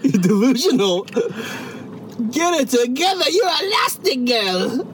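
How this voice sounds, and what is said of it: Imitates the Edna Mode character voice. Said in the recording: “That's pretty good impression ... Edna Mode? Is that you?”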